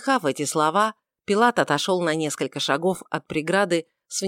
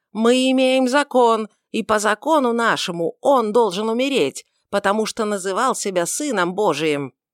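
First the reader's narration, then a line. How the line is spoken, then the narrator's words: Bold loud shout, old man. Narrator (Russian): высокий человек с седой головой, смело, громким голосом закричал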